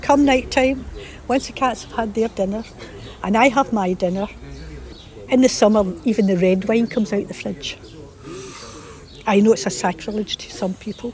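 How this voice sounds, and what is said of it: Lilting Scottish accent. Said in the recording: “What a lovely accent she's got. After all the time she's been here, she's still got that really lovely Scottish lilt to her voice”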